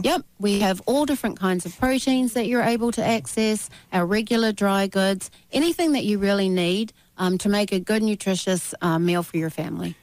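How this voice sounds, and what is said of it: New Zealand accent. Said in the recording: “that great New Zealand accent, that original accent ... it's either Australian or New Zealand”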